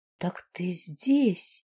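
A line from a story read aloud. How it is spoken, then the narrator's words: Quiet repetition. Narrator (Russian): повторил он тихо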